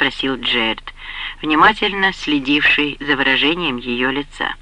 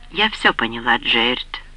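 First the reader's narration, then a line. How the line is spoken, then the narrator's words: Calm. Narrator (Russian): спокойно ответила Коринна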